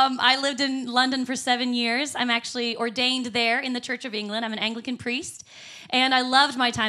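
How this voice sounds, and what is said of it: Usual voice. Nothing is said of it.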